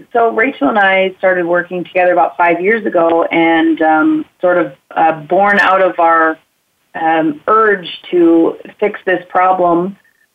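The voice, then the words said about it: Scratchy voice. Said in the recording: “my scratchy voice”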